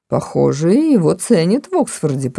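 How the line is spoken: Grumbling. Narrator (Russian): пробурчал полковник

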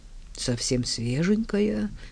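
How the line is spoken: Muttering. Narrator (Russian): пробормотал

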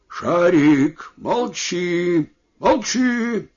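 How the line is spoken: Shouting at dog. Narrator (Russian): крикнул на собаку

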